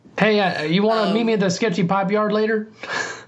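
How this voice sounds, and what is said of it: Mixed country bumpkin and Italian accent. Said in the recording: “accent that you did there, because it was like half country bumpkin, half like super Italian”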